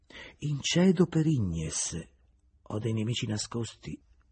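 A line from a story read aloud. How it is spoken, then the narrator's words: Plain reply. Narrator (Italian): rispose Julien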